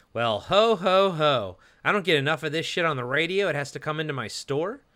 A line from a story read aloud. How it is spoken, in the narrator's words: The attendant says sarcastically